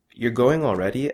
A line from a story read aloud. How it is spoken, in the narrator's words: asks Sapna